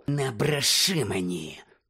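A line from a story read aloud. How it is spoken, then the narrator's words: Hiss. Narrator (Ukrainian): прошипів Снейп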